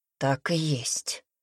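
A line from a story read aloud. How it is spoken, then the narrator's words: Strained, forced out. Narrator (Russian): выдавил Пайер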